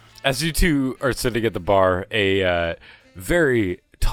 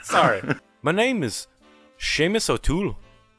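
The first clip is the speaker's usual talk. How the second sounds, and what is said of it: Put-on Irish accent. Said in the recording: “Maybe elves in this world are the ones that have the Irish accents. ... This is the first fucking Irish accent I've done the whole fucking game.”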